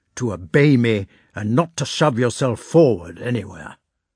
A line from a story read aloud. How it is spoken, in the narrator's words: he said sternly